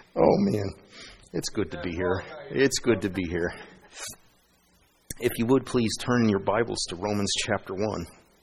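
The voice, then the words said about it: Froggy, hoarse voice. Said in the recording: “My voice is a little froggy today”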